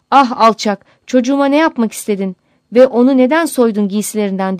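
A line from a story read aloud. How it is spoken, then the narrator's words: Crying out angrily. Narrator (Turkish): diye haykırarak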